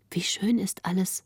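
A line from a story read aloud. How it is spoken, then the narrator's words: Soft, so as not to disturb. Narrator (German): sprach Greta leise, um den Grafen nicht zu stören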